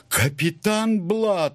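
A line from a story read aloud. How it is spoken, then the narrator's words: Exclaimed. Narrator (Russian): воскликнул он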